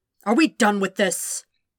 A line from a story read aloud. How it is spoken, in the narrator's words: He snapped